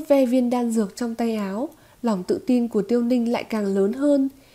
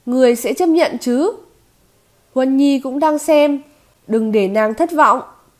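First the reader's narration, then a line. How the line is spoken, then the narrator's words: Reluctant loud speech. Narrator (Vietnamese): nhị trưởng lão đành phải bất đắc dĩ lớn tiếng nói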